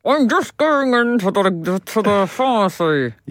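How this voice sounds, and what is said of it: Ventriloquist-style thrown voice. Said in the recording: “You've really got it. You've nearly got it there. ... It was a good bit of ventriloquism.”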